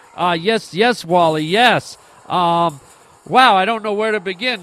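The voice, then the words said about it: Excited, keyed-up voice. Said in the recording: “hear the excitement in my voice ... calm down. Dial it down a notch”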